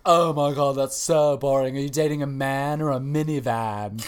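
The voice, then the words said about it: Poor impression of a TV character. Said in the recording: “that was a terrible Miranda impersonation”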